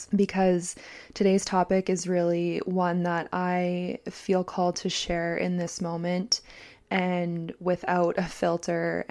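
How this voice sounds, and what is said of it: Scratchy, raspy voice. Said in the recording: “my voice. It is a bit scratchy. I have a bit of like a raspy hotness going on”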